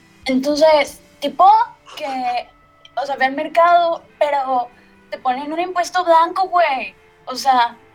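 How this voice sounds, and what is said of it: Imitated young Monterrey woman's voice. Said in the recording (Spanish): “hacer una voz de Ana Sofi ... de Monterrey”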